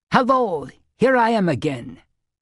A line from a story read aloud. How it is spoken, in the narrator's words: called the stranger cheerfully